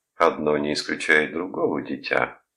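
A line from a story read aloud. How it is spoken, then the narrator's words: Soft laugh. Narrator (Russian): мягко рассмеялся Бойлон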